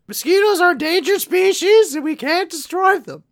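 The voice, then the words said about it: Pleakley cartoon alien character impression. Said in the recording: “that is the best Pleakley impression that I've ever heard... It's like he's here in the room with me.”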